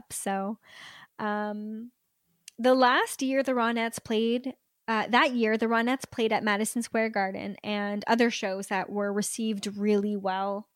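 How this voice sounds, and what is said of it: Hoarse voice. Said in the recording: “My voice is starting to get hoarse”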